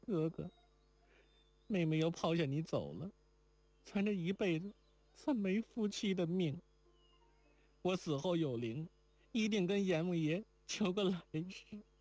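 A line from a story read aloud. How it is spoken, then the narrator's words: Crying. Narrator (Chinese): 抱着金环哭道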